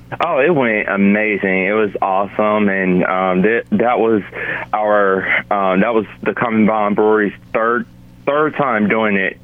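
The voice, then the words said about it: Scratchy, hoarse voice. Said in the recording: “sorry for the voice that I have today. It's kind of scratchy from last night. I was actually doing a karaoke concert.”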